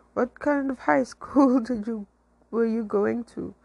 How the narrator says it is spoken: I laughed

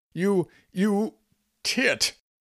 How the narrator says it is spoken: all she could think to yell after him was

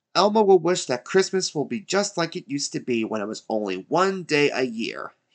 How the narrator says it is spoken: he exclaimed

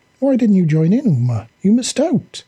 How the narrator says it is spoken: he exclaimed

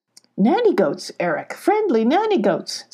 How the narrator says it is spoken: said Sylvie cheerfully

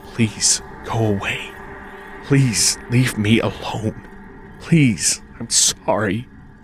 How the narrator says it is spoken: I whispered

